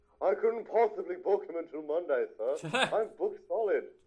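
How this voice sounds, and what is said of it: Impression of actor Robert Ridgely. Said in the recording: “Robert Ridgely does the voice of Pitfall ... You had an impersonation of him as the hangman.”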